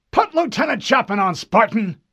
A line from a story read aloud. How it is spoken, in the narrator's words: an irritated voice snapped